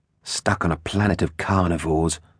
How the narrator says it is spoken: sighed Gypsy

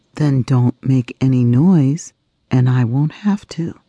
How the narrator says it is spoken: said the mouse

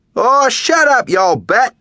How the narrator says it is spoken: Hells shouts

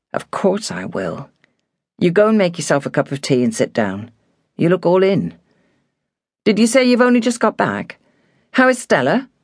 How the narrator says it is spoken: said quietly

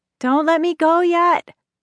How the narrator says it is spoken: Benny was hollering

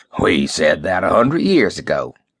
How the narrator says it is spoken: snorted

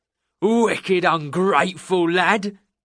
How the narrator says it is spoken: Jake growled

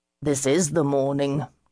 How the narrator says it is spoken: Jasper said gloomily

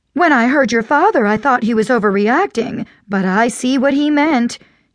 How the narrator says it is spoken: she exclaimed

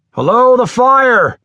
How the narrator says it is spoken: he called out

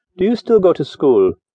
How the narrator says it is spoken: he said in a friendly tone

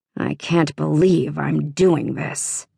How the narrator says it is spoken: he muttered

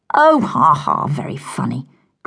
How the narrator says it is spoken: grunted Lucy

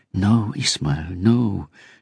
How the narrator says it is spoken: she murmured

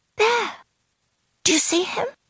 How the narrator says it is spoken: she whispered

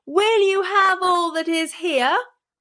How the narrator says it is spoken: called out as loud as he could bawl

